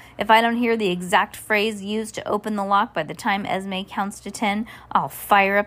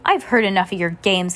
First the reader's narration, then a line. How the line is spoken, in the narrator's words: Count Olaf roared